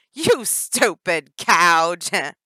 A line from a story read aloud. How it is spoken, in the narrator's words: Danny laughed loud and pointed at her like a taunting schoolyard bully